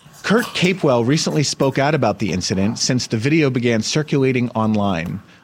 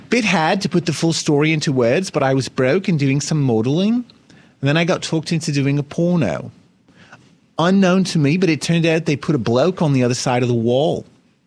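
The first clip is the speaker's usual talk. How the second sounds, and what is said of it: Put-on Australian accent, poorly done. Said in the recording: “my terrible Australian accent”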